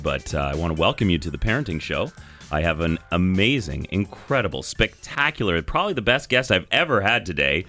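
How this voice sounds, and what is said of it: Slightly hoarse, deeper voice. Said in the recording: “I've got a little frog in my throat, so I'm feeling a little bit deeper”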